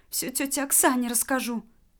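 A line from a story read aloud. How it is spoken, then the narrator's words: Sobbing mumble. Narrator (Russian): Настя, всхлипывая и бормоча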